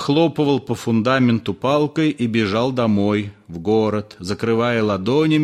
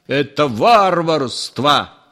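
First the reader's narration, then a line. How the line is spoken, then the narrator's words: Shouting at wife. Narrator (Russian): кричал Триухов на жену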